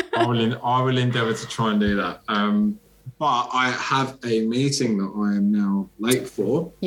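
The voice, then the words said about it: English accent. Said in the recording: “stupid English accent”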